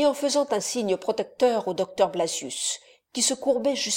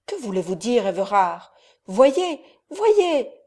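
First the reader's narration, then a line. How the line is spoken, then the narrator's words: Young man exclaiming. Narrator (French): s'écria le jeune homme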